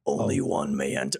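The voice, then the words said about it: Cave of Wonders voice from Aladdin. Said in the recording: “That sounds exactly like the Lion Cave from Aladdin ... It sounds exact. It's Frank Welker does the original one ... You sound just like him”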